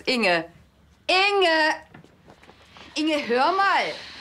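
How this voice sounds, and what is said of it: Shouting loudly. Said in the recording (German): “Schrei doch nicht so.”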